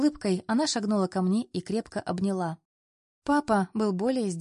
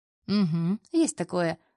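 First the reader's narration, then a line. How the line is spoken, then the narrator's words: Snorting. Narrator (Russian): хмыкнул Андрей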